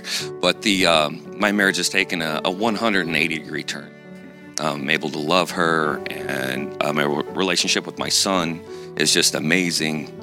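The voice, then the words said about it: Emotional, voice slightly choked up. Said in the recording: “getting a little emotional here”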